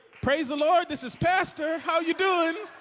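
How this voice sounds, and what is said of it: Cheerful happy voice. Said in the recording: “I put on my happy voice.”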